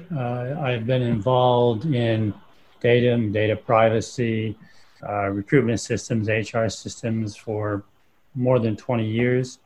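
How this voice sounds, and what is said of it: American accent. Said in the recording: “my obvious also American accent”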